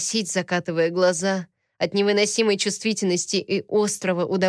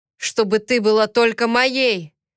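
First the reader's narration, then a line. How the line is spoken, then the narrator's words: Long drawn-out growl. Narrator (Russian): Протяжно зарычал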